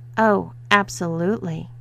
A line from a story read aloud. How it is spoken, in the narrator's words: purred Haley